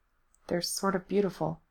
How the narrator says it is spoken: he said softly

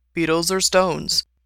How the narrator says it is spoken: asked

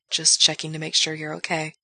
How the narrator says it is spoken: Gerard murmurs

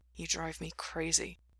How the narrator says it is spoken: he muttered

